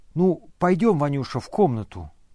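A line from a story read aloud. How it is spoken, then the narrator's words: Plain. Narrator (Russian): сказал он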